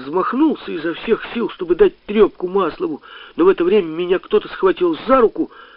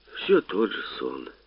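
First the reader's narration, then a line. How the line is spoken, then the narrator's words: Father speaking softly. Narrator (Russian): мягко сказал отец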